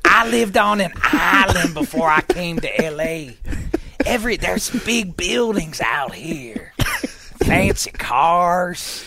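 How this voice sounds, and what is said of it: Imitates another person's voice. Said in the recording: “if you want to hear any more of this impersonation”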